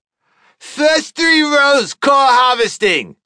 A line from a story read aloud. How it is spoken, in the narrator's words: he shouted